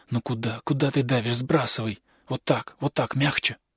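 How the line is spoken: Quiet whisper. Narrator (Russian): мистер Уэллик тихо шептал

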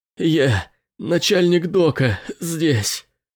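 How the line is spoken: Strained, between agonized screams. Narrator (Russian): удалось выдавить мужчине между воплями агонии

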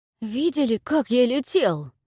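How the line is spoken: Ecstatic wheeze. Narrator (Russian): Восторженно просипел он

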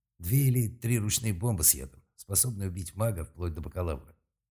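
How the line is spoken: Calm reply. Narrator (Russian): спокойно ответил Малк

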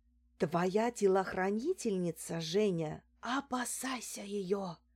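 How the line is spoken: Whisper. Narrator (Russian): прошептала я

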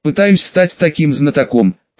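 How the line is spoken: Short laugh. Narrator (Russian): хохотнул Серж

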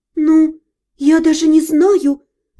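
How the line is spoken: Confused mumbling. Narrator (Russian): растерянно забормотала я

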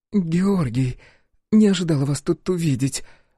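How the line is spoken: Confused woman. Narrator (Russian): растерянно произнесла женщина

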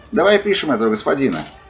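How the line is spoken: Cheerful exclamation. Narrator (Russian): Весело восклицает она

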